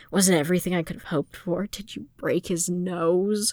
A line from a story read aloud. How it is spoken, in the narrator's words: Fëanor snorted